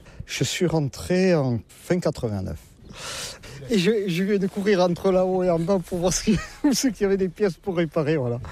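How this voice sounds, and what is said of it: Southern French Landes accent. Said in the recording (French): “comme vous l'entendez, je ne suis pas de la région ... Avec mon accent, je ne suis pas du Nord-la-Loire ... Je suis des Landes, hein, du pays de Saint-Vincent-de-Paul”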